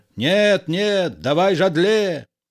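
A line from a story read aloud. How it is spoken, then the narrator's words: Nasal voice. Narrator (Russian): Жадле гнусавым голосом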